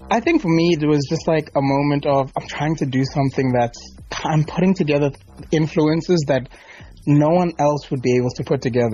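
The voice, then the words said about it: South African accent. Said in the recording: “I love that you've retained your South African accent.”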